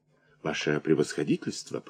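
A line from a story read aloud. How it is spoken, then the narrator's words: Whisper. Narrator (Russian): прошептал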